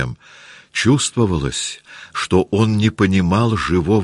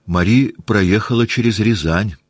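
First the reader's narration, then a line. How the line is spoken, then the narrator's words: Plain. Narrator (Russian): сказала Наташа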